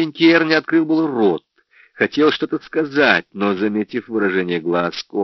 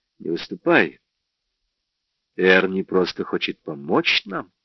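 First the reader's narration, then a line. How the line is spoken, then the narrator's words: Cold. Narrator (Russian): Кора холодно глядя на Джорджа, сказала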